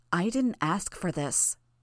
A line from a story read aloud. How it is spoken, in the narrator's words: Noelle said